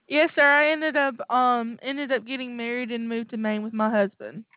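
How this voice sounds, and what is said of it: Southern American accent. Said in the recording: “you've got that southern accent.”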